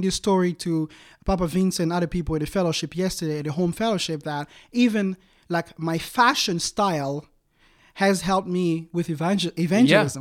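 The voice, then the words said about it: African-accented English. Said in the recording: “being from Africa, your accent”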